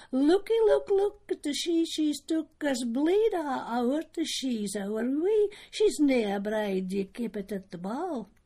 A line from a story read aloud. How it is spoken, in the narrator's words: twa cushy does they cried out